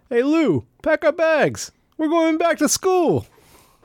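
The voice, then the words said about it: Rodney Dangerfield impression. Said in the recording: “Is that Rodney Dangerfield? ... Rodney Dangerfield impersonation.”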